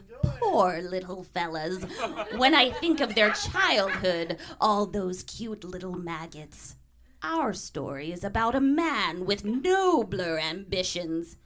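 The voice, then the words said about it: Crypt Keeper character voice. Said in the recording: “do his voice, but now I know how poorly I was doing his voice”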